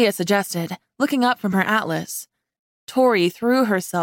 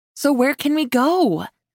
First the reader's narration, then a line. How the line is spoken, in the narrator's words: I pleaded